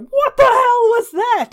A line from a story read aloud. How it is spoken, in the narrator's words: he starts roaring